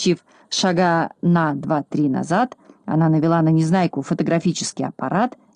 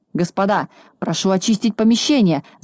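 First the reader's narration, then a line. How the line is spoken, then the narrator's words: Frightened shout. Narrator (Russian): закричал испугавшись Хабс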